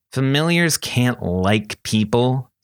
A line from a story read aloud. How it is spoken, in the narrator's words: sneered Allie